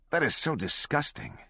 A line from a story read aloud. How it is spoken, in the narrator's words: Swango said, his voice tinged with contempt